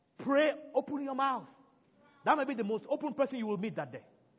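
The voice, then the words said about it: African-accented English. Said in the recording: “they will hear an accent... I'm not an American... I'm an African for a reason. I don't want to change my accent.”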